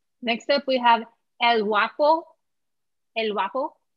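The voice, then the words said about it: Put-on accent, said to be good. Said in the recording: “How was that accent? ... It was actually really good.”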